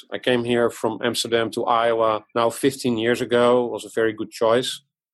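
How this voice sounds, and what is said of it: Dutch accent. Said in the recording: “As you can hear from my accent, I was born abroad in the Netherlands.”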